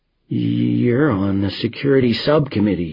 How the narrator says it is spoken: he says, his voice shaking

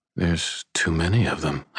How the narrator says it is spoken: I breathed

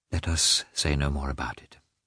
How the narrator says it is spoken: she added more calmly

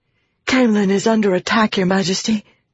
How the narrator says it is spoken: the woman said, gasping for breath

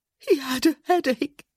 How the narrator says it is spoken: she whimpered

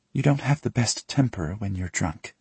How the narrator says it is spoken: she says softly

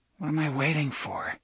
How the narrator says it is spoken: he muttered

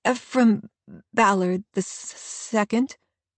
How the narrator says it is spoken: he stammers

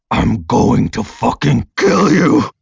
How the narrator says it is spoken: He snarls

